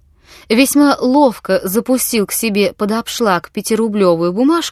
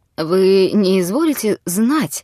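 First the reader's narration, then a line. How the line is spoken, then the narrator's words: Weak trembling voice. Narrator (Russian): начал он расслабленным и дрожащим голосом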